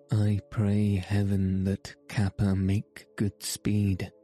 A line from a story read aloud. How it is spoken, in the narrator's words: said Dick